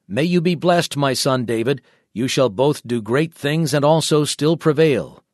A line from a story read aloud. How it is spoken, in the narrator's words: Saul exclaimed